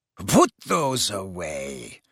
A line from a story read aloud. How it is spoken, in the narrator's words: she said coldly to Harry and Ron